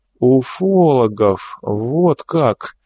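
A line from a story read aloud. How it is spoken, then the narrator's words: Drawling. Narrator (Russian): протянул Серов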